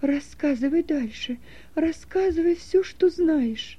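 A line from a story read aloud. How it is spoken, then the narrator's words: Moaning after a stifled cry. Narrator (Russian): Услышав имя сына, она невольно испустила громкий крик, но потом быстро удержалась и простонала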